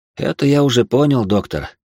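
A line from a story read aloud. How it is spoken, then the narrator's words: Heavy sigh. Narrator (Russian): тяжело вздохнул я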